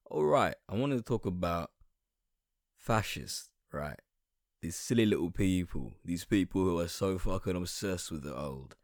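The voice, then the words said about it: Hoarse, sore-throat voice. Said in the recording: “apologize for my voice right now. My throat is so sore and I think I caught something”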